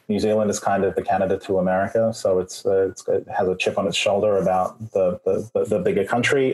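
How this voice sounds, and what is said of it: Australian accent. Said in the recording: “the accent is from Australia.”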